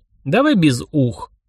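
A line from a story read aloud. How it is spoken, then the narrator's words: Snorting. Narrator (Russian): хмыкнул я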